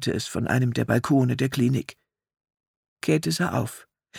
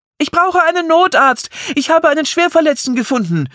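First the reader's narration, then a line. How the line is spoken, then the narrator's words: Shouting into the night. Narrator (German): schrie sie in die Nacht hinaus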